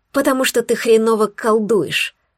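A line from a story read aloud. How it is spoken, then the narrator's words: Hoarse rasp. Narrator (Russian): прохрипела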